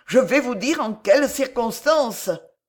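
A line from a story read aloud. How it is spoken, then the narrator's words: Exclaimed. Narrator (French): s'écria Marillac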